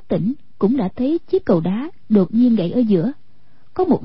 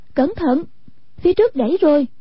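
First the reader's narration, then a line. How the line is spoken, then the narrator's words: Warning cry. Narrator (Vietnamese): Hoàng Dung kêu lên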